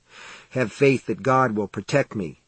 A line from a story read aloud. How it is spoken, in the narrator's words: he murmured